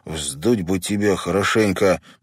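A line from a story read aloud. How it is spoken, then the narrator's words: Through gritted teeth. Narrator (Russian): процедил Дэнни брату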